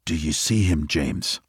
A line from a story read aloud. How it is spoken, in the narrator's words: Louis whispered as quietly as he could